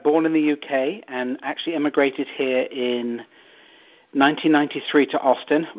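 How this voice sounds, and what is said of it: English accent. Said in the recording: “where is your accent from? ... it's English.”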